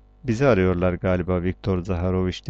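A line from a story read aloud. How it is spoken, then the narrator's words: Plain. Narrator (Turkish): dedi Nikolay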